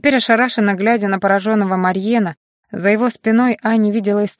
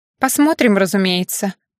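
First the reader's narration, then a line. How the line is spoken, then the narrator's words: Snorting. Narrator (Russian): фыркнула Аня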